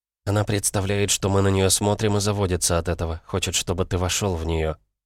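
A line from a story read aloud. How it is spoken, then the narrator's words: Whispering into ear. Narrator (Russian): на ухо прошептала Оливия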